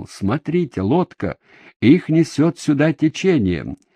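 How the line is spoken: Exclaimed. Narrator (Russian): один из монахов, воскликнул

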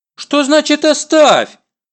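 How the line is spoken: Indignant mother exclaiming. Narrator (Russian): Уже возмущенно восклицает мама

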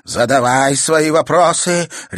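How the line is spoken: Barked. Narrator (Russian): рявкнула она

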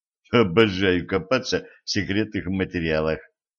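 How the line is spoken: Muttering. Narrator (Russian): пробормотал Денис

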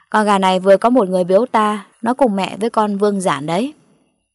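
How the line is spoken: Smug loud laughter. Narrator (Vietnamese): Gã béo lùn có vẻ đắc ý cười lớn

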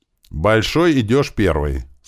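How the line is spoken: Plain. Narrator (Russian): сказал я ему

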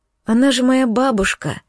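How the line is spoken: Hoarse whisper. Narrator (Russian): сорвался с губ сиплый шепот

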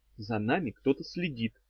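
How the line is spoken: Whisper. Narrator (Russian): прошептала она

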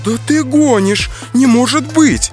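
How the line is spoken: Exclaiming. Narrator (Russian): воскликнула Чива

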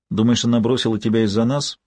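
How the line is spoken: Calm question. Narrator (Russian): спокойно спросила Кармела

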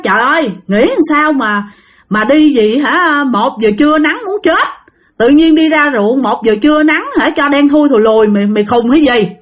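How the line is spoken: Shouting. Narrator (Vietnamese): nó mới la lên, nó nói

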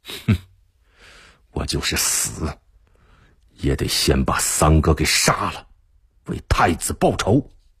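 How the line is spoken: Through gritted teeth. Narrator (Chinese): 贺仁杰咬牙道

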